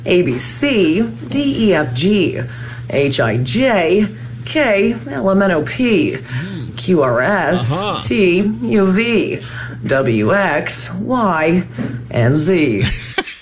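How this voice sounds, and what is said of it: News anchor style read. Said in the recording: “an impression of news anchors doing the alphabet ... Here's my impression of somebody who works in the news doing the alphabet ... that newsy read”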